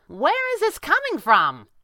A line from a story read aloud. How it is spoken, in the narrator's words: Kit yelled